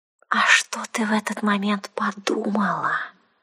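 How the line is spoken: Insinuating venomous hiss. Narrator (Russian): Вкрадчиво и как-то ядовито прошипела она, наклоняясь к моему уху

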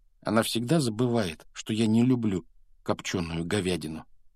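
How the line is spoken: Sad. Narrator (Russian): грустно произнес он

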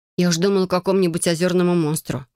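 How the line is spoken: Snort. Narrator (Russian): фыркнула я

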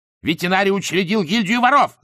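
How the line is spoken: Shouting. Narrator (Russian): закричал Эдуард

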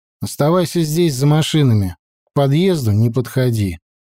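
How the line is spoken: Plain. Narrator (Russian): сказал я ей

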